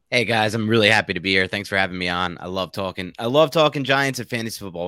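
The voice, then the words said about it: New York accent. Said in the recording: “I love the New York accent”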